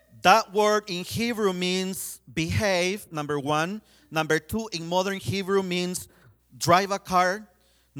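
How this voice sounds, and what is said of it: Hispanic accent. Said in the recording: “I'm pronouncing a Hebrew word with a Hispanic accent.”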